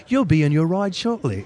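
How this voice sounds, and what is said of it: Put-on British accent. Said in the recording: “the British voice comes on ... Was that a British accent?”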